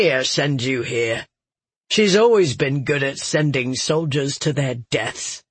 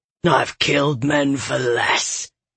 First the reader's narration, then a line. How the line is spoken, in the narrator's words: Galathon snarled, his face so close